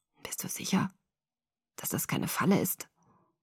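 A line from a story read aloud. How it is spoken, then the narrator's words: Husky asking voice. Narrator (German): fragte er mit belegter Stimme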